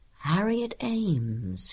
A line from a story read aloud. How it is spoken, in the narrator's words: he murmured